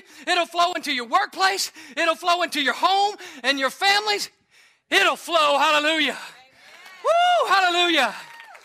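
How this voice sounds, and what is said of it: Out of breath, panting. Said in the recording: “I'm out of breath from pumping. ... Is it okay if I take a few deep breaths? This old man wore out.”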